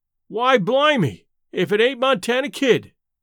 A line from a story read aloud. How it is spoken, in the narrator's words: exclaimed one of the men